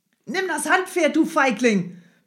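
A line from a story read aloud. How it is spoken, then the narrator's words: Shouting. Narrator (German): brüllte der Kurier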